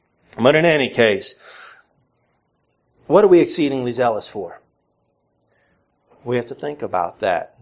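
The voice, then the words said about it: Mixed northern and southern American accent. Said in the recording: “my accent is very muttly, as you probably detected. There's a little bit of northern in there, a little bit of southern. My northern friends say I talk funny. My southern friends say I talk funny.”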